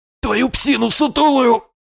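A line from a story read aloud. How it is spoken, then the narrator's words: Hoarse wheeze. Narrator (Russian): прохрипел я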